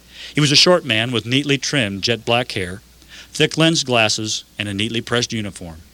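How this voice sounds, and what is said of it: Usual voice. Nothing is said of it.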